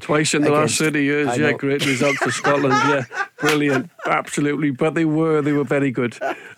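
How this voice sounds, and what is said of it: Welsh accent. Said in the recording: “Is that really your accent? Are you really Welsh”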